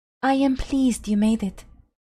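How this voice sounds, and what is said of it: Rich, cool, calming accent. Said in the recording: “her rich accent curling around Silver as cool and calming as an old friend”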